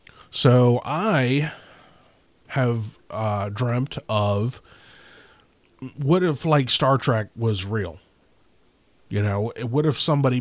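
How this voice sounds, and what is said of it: Stuffy, congested voice. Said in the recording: “sneezed about a dozen times, and now my head's a little, stopped up. So I'm sure my voice may sound a little different.”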